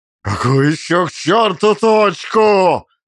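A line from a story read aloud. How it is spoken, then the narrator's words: Roared. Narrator (Russian): взревел он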